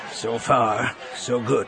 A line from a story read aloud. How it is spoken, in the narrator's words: Wedge said, his voice low